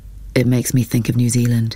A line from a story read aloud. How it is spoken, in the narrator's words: she told him, her voice flat, uninflected, as if she could feel the pain but wouldn't yield to it